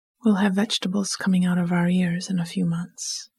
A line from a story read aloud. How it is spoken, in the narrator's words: she said